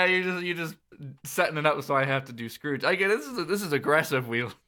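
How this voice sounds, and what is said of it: Usual voice. Nothing is said of it.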